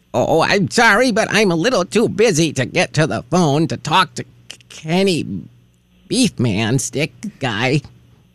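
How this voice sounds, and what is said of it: Old woman character voice. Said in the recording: “does a great old woman”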